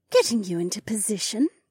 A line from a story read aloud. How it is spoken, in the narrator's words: Remna cooed